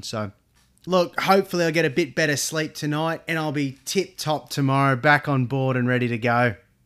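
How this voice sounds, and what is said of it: Tired, slightly flat voice. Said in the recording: “as you can hear in my voice, I feel it sound a little bit flat... I'm tired. I'm really tired”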